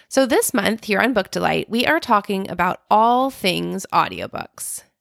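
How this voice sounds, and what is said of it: Slightly off, ill-sounding voice. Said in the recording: “we all caught COVID. I'm just getting over it at the time of this recording, so if my voice sounds a little funky”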